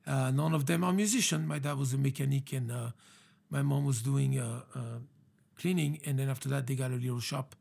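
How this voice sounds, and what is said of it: French accent. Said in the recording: “you are not born in America by the accent that we all hear ... I got this accent, French accent.”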